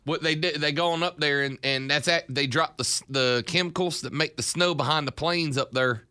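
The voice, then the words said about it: Weak put-on Southern US accent. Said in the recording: “You've got some really good accents. Your southern accent, boy, it's not really that good. You need to work on that, fella.”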